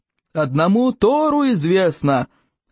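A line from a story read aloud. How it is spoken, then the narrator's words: Yelling. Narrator (Russian): вопил Плевака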